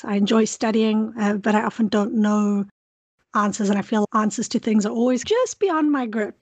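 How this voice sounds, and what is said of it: South African accent. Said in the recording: “as you can hear from my accent, I'm from South Africa”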